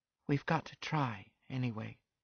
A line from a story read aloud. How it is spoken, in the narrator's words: I heard her say faintly